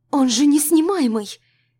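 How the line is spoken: Desperate exclamation. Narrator (Russian): воскликнула я в отчаянии

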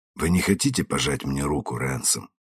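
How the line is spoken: Soft. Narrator (Russian): мягко сказал я

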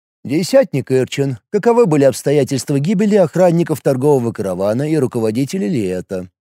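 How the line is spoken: Utterly indifferent question. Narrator (Russian): Абсолютно безразличным голосом спросил Такул

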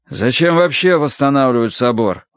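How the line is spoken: Grumbling. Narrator (Russian): ворчал сын

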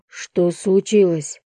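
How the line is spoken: Hoarse question. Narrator (Russian): спросил я хрипло

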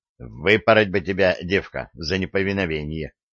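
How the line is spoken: Snorting, mocking. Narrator (Russian): хмыкнул он

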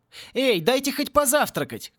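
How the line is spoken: Shouting. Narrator (Russian): крикнул Пори

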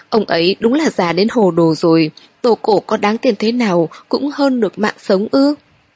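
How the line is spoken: Sobbing. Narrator (Vietnamese): Tỉnh Tuệ nức nở

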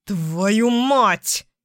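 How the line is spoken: Growled. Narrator (Russian): рыкнул

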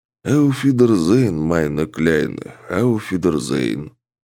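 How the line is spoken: Soft singing. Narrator (Russian): тихо пропел носорог

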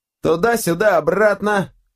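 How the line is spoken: Shouted. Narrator (Russian): выкрикнул кто-то

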